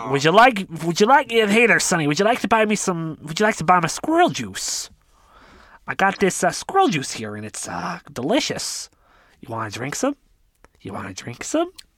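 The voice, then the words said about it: Performed NPC character voice. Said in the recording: “You do the NPC voices so well.”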